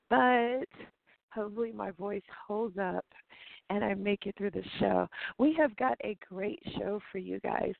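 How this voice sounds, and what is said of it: Slightly hoarse voice. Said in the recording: “I'm a little hoarse today because I was out all night”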